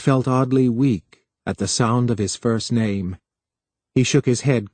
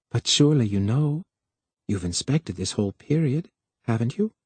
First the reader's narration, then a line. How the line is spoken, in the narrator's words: weakly, he explained